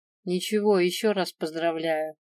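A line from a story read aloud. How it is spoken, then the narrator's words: Mumbled reply. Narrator (Russian): Пробурчала в ответ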